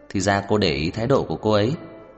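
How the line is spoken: Laughing. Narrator (Vietnamese): Tô Thụy Kỳ bật cười

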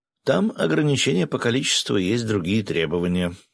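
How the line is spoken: Plain. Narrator (Russian): ответила Катя

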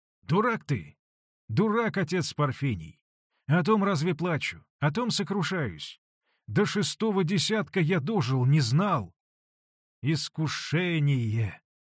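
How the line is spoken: Exclaimed. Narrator (Russian): воскликнул Василий Борисович

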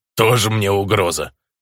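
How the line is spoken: Mower's scornful snort. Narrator (Russian): фыркнул косарь

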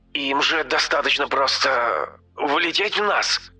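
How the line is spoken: Hoarse speech. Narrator (Russian): хрипло сказала Хлоя

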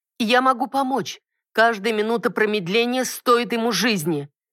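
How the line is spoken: Angry shout. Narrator (Russian): гневно выкрикнула я

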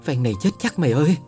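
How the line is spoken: Trembling voice. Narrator (Vietnamese): giọng run run

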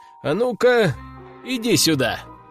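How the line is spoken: Calling over. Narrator (Russian): подозвал

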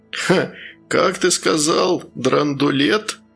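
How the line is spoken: Laughing. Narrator (Russian): незнакомец рассмеялся

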